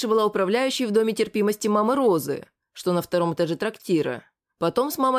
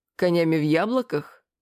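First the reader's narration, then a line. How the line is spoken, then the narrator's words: Short laugh. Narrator (Russian): хохотнул я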